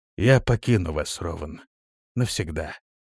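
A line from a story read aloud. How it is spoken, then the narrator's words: Sad smiling reply. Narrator (Russian): грустно улыбаясь, ответил Прокс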